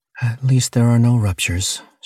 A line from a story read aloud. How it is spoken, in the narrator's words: sighed with relief